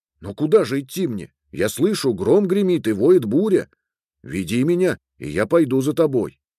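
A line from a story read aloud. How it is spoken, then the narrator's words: Prince exclaiming. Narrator (Russian): воскликнул королевич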